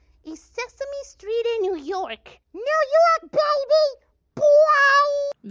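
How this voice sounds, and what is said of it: Puppet character voice, passionate New York accent. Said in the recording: “passionate New York accent”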